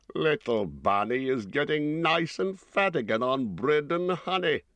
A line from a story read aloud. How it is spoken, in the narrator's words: he chuckled